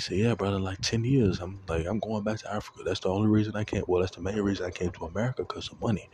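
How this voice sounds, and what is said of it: Put-on accent imitating a friend. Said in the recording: “let me stop doing the accent”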